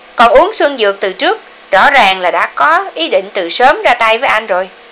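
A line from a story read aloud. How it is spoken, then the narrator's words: Smiling. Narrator (Vietnamese): Hà Vĩnh Kỳ mỉm cười nói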